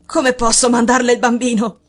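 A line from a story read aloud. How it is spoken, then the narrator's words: Exclaiming. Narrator (Italian): esclamò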